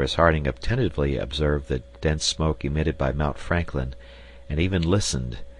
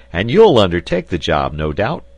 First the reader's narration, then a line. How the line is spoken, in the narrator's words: cried Pencroft with a shout of laughter